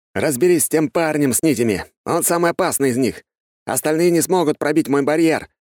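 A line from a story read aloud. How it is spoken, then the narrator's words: Shouted. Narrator (Russian): крикнул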